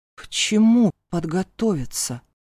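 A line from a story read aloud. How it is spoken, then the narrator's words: Confused question. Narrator (Russian): Уточнила я растерянно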